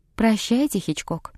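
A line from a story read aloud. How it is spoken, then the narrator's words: Plain. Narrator (Russian): сказала девушка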